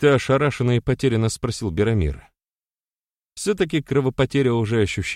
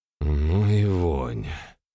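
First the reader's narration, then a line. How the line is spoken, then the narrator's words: Grumbled. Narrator (Russian): пробурчал Беромир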